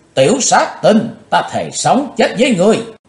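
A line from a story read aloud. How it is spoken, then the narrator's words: Loud scream. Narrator (Vietnamese): Ả hét to lên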